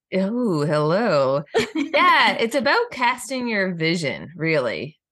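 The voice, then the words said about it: Sultry, sexy voice. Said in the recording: “in your sexy voice”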